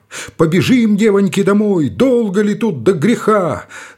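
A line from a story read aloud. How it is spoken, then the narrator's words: Older woman shouting. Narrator (Russian): тетка Авдотья Бильдина, тезка моя, баба уже в годах, закричала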